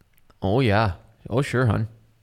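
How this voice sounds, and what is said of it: Put-on Minnesota accent. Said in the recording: “That's not the worst Wisconsin accent. ... It's not a Wisconsin accent. That's Minnesota.”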